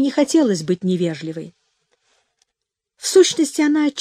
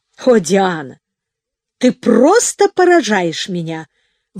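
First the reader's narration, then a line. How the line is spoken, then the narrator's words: Countess's overwrought exclamation. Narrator (Russian): воскликнула графиня вне себя от волнения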